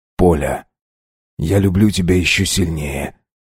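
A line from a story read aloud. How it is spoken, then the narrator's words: Quiet speech. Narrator (Russian): тихо сказал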